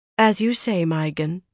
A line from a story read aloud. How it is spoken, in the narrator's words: Swan replied in a meek voice